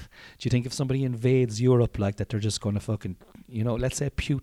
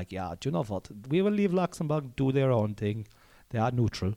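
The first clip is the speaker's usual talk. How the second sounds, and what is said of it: Put-on German accent. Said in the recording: “that was a kind of a German accent there now”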